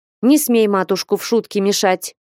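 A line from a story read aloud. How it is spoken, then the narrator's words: Stern, annoyed. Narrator (Russian): строго с досадой молвила Флёнушка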